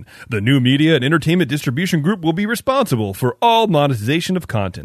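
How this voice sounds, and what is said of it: Formal announcer-style voice. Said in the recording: “That's my announcer voice”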